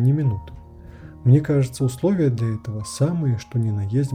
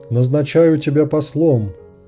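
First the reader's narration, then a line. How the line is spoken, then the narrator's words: Hasty shout, king. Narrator (Russian): поспешно крикнул король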